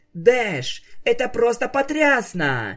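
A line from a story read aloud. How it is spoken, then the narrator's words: Delighted full-throated shout. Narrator (Russian): Не в силах сдержать восхищение, во все горло закричала Скуталу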